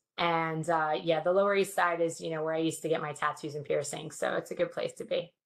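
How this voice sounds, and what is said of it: New York accent. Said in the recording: “my New York accent come out for like a solid 5 minutes”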